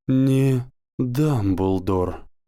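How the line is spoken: Breathed out. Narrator (Russian): выдохнул профессор Квирл

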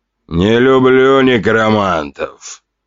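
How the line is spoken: Grumbling cake. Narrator (Russian): проворчал тортик

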